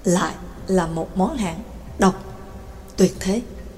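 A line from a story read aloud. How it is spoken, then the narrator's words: Resigned sigh. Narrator (Vietnamese): Trắc Mộc Cường Ba cũng đành thở dài cảm khái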